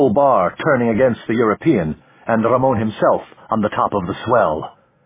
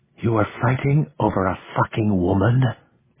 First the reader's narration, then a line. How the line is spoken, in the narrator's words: Elena breathed